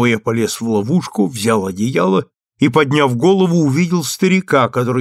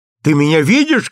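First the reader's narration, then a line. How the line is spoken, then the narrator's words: Shouting. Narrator (Russian): крикнул я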